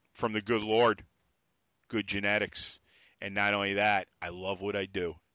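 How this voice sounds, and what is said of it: New York accent. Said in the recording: “I love that New York accent.”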